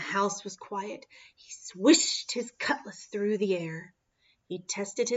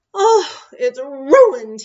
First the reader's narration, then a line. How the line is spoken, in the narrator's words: moaned